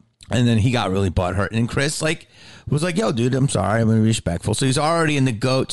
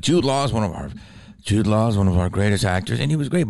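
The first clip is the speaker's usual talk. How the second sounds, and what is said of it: Poor imitation of another person's voice. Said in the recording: “That's not a good impression. I got to work on it.”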